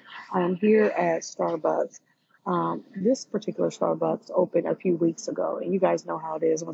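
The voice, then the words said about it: Whispered low monotone voice. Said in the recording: “it probably sounds like I'm whispering or I'm talking in a low monotone voice, and I am.”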